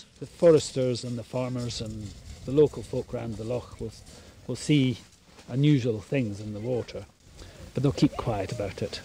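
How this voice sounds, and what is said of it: Scottish accent. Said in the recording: “a good accent ... Scottish”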